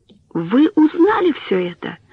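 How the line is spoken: Exclamation. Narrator (Russian): воскликнул начальник

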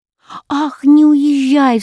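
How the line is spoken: Princess crying out. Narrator (Russian): вскрикнула принцесса

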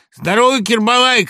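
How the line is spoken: Shout. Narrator (Russian): крикнул ему Самойленко

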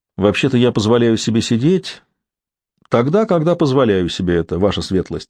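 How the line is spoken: Calm. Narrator (Russian): спокойно молвил он

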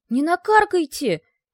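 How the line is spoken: Pleading. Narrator (Russian): взмолился Жак

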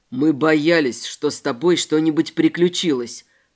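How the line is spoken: Whispered. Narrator (Russian): прошептал Шарат

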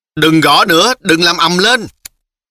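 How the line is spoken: Loud shout. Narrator (Vietnamese): Lỗ Quân Bội cao giọng quát

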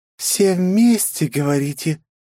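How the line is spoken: Eerie voice. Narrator (Russian): произнесла ее высочество жутковатым голосом

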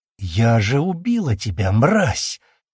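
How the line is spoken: Stunned, forced out. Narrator (Russian): ошеломленно выдавила Инферика

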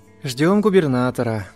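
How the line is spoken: Sarcastic sigh. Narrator (Russian): вздохнул корпорант, и нотка ехидства проскочила в его голосе

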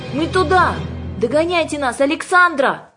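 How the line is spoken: Shouted. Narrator (Russian): крикнула Аннушка

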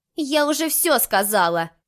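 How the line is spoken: Irritated. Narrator (Russian): раздраженно произнесла Фаина

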